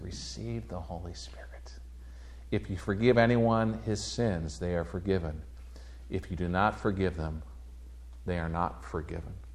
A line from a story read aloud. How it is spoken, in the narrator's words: breathed on them and said